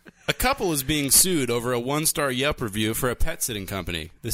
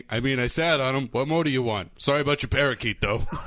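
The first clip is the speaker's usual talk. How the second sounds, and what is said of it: Jersey tough-guy impression of another person. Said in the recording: “your impression of me is like some fucking Jersey lunk”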